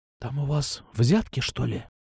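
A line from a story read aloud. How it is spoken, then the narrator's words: Whisper. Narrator (Russian): прошептала она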